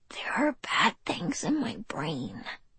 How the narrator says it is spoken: he breathed

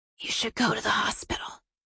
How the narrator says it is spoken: Maggie breathed

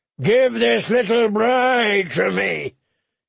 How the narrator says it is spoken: he bellowed

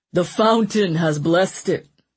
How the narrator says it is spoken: Severn said with a mocking laugh

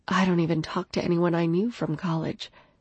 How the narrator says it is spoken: Feeling content, I murmured against his skin

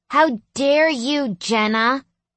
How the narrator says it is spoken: Chloe squealed

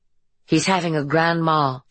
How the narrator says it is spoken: she said

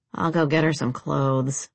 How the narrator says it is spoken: the redhead mumbled

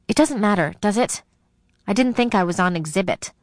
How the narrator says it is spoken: Embarrassed, I snapped

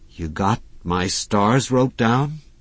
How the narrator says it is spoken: Hazel demanded anxiously

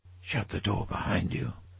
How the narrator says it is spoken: he whispered

